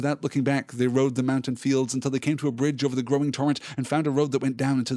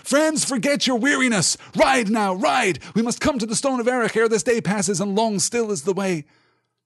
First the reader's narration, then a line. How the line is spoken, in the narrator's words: Aragorn cried aloud so that all could hear